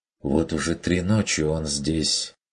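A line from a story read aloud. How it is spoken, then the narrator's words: Quiet interjection. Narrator (Russian): вмешался Бруно негромко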